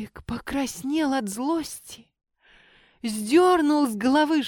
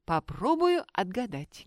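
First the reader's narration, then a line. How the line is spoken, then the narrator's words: Plain. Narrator (Russian): говорит Ганка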